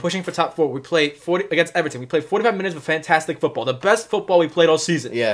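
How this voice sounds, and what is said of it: Usual voice. Nothing is said of it.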